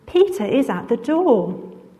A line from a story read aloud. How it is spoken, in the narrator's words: she was so overjoyed … exclaimed